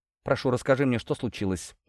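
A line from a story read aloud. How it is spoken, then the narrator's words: Conciliatory request. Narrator (Russian): Уже более примирительным, а не приказным тоном попросила она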